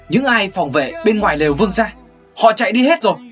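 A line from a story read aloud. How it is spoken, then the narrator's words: Shout. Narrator (Vietnamese): Cơ Bằng Nhạn quát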